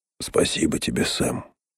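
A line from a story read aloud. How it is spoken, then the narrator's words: Hoarse whisper. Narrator (Russian): хрипло прошептал он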